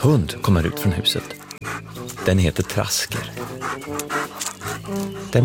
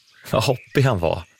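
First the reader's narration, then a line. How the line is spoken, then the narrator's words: Said laughing. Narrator (Swedish): säger Brum och skrattar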